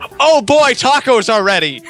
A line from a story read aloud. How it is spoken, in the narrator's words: Shouted into his microphone